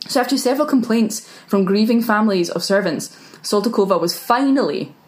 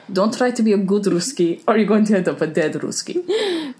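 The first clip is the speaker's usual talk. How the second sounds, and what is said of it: Put-on Russian-style accent. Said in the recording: “that's why I had to say it in the accent”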